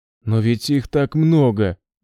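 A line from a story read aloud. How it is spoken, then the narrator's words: Whimpering. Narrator (Russian): захныкал он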